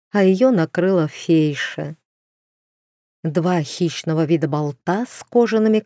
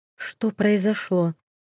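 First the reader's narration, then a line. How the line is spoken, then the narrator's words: Quiet trembling question. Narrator (Russian): негромко спросила, чувствуя, как ее начинает трясти с головы до ног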